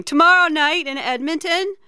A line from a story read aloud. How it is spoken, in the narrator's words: Paula is suddenly yelling